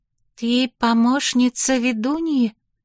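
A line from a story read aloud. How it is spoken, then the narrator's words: Timid young woman. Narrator (Russian): робко спросила приветливая молодая женщина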